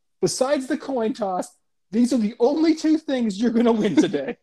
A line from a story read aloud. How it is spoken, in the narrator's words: yell